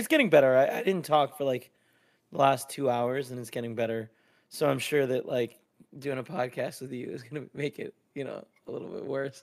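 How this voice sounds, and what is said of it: Hoarse, scratchy voice. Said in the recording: “my throat got a little sore and I'm losing my voice a little ... You sound a little scratchy. A little scratchy scratch.”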